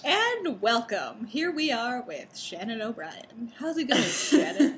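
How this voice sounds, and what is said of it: Mock radio announcer voice. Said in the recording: “It's my radio voice.”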